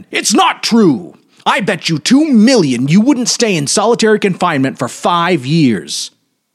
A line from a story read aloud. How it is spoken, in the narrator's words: He struck the table with his fist and shouted